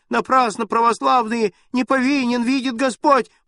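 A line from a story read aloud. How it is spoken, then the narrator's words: Old man's piercing shriek. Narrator (Russian): пронзительно взвизгнул дед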